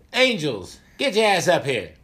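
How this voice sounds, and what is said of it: Imitates another person's voice. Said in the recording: “that's not a racist impersonation. Yeah. That's a Samuel Jackson. ... Jackson impersonation.”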